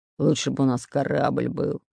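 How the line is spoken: Displeased growl. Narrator (Russian): Недовольно прорычал Бульбуль

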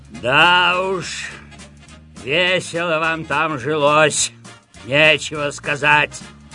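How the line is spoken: Disdainful grumble. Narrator (Russian): проворчал он, брезгливо улыбаясь

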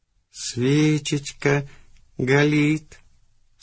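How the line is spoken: Rapturous drawl. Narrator (Russian): с упоением протянул ты

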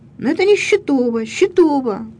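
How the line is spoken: Overlapping shouting voices. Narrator (Russian): донесся удивленный, если не сказать пораженный, но твердый, звенящий голос

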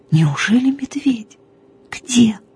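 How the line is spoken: Whispered. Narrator (Russian): шепнула я

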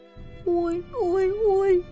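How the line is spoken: Groaning. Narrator (Russian): простонал Типпи

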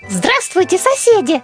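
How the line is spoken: Shouted. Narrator (Russian): прокричала она

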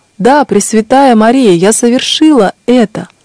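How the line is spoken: Loud exclamation, voice regained. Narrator (Russian): Тогда вернулся к ней голос, и она громко воскликнула

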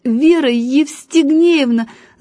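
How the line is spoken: Stuttering shout. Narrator (Russian): заикаясь, крикнул он

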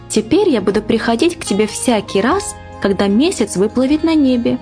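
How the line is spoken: Cheerful, gentle fairy voice. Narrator (Russian): весело проговорила фея нежным своим голоском

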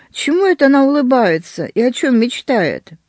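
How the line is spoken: Cautious question. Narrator (Russian): осторожно спросил

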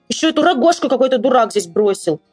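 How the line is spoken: Angry shout. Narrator (Russian): закричал из-за злости

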